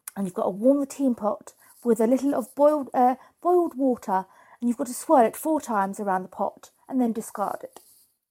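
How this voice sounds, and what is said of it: Put-on posh British accent. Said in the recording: “I don't know why I'm talking posh.”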